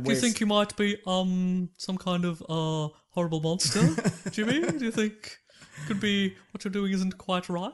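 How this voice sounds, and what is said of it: Louis Theroux impression. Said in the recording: “my Louis Theroux impression ... I thought that that was on point.”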